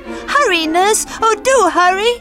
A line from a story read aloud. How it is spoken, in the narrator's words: squealed Clara